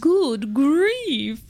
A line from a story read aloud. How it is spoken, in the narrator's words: groaned the ones who had stars at the first